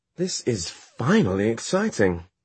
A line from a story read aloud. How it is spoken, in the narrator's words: she exclaimed